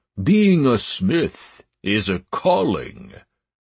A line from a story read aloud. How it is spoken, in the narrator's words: the orc said solemnly